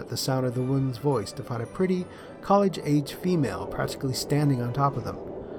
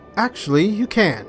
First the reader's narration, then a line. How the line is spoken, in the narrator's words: the girl exclaimed brightly